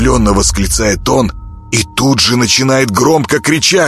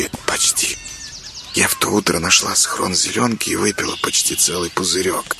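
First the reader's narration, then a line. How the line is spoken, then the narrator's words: Girl's whispered confession. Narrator (Russian): шепотом признается девочка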